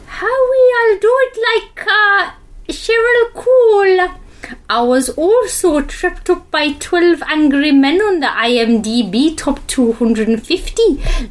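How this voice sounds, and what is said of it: Put-on Newcastle accent, not very good. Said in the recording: “how is your Newcastle accent? ... It's not very good. ... this is in a Newcastle accent.”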